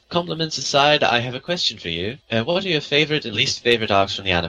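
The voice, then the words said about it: Terrible put-on British accent. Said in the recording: “that's a terrible British accent ... that terrible accent”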